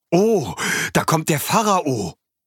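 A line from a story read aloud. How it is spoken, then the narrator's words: Excited. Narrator (German): Aufgeregt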